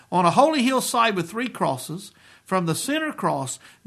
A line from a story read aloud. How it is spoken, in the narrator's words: Jesus cried out in triumph over sin and Satan